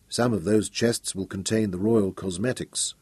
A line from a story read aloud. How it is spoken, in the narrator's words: Royan murmured